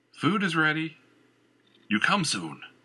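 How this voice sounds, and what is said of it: Deep yelling character voice. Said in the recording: “a deep voice yelled”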